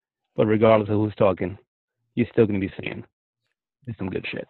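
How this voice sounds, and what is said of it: Smooth New York radio voice. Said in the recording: “You had like a very smooth New Yorker radio voice. ... smooth radio”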